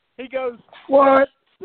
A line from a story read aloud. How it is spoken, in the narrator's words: Coach yells, yeah, Coach yells first